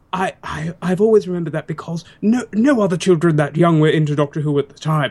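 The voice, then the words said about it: Australian accent. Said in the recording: “I detect an Australian accent.”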